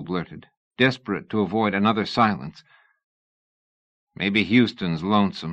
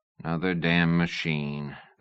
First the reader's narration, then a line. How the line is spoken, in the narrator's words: the Texian said wearily